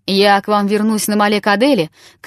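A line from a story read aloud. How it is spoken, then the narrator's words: Shouted farewell. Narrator (Russian): крикнул он им на прощание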